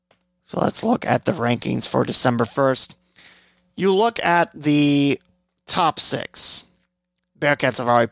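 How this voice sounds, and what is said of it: Hoarse, fading voice. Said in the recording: “I am losing my voice... my voice going out like this”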